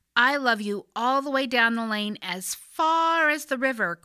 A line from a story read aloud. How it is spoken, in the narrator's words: cried Little Nut Brown Hair